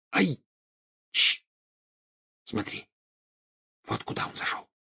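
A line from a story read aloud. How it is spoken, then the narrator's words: Whispered into ear. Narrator (Russian): шепнула она на ухо Гарри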